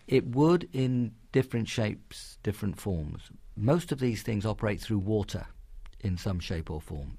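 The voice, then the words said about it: London English accent. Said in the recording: “you can tell by my accent that that's a city I have some attachment to”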